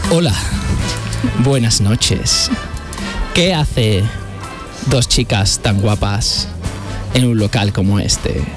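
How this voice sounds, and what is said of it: Put-on sensual seductive voice. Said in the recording (Spanish): “Voy a poner voz de sensual.”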